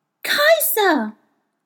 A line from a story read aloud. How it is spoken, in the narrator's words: cried joyfully